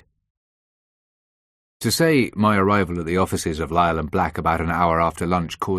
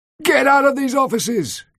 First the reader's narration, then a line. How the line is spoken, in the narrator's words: Gregory shouted at me